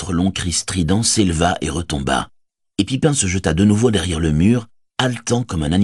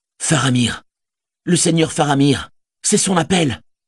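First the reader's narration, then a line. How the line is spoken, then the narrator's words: Exclaimed. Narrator (French): s'écria Bérégon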